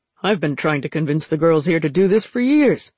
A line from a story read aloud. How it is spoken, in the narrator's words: he said